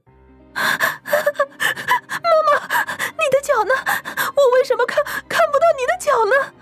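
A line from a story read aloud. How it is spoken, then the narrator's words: Sobbing cry. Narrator (Chinese): 苏瑶仍然向前爬着，啜泣着，哭喊着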